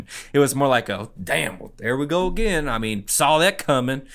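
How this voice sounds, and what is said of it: Put-on Lubbock Texas accent. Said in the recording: “That's your Lubbock accent? ... That's as best I can do.”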